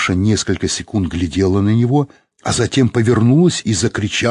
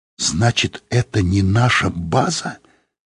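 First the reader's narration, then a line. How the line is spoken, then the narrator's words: Whispered. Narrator (Russian): сказала она шепотом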